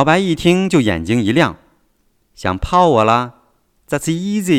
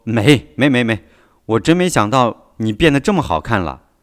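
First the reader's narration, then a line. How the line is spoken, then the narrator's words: Hurried, embarrassed. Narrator (Chinese): 习近平脸一红，急忙说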